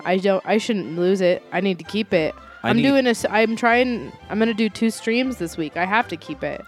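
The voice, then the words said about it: Hoarse, sick-sounding voice. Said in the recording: “my voice is going ... we sound like death because ... got sick”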